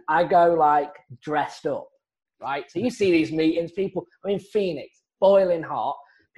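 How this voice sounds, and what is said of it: Speaks with a noticeable accent. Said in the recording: “stand out, you know, like a sore thumb with my accent”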